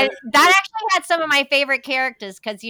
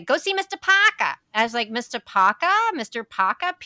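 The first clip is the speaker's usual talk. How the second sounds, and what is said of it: Imitated Long Island accent. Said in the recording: “that's the first time I had heard a Long Island accent.”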